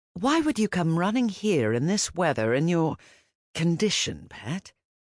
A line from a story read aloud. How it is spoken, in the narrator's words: he asked kindly